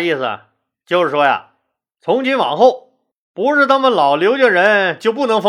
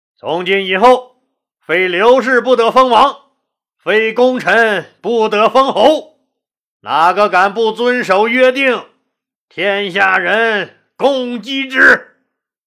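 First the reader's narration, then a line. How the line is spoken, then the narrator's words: Loud proclamation. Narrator (Chinese): 刘邦高声说道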